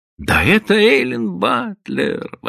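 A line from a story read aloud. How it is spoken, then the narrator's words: Exclaimed. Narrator (Russian): воскликнула она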